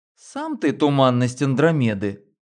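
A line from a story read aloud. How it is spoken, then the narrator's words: Laughing. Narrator (Russian): рассмеялась Лена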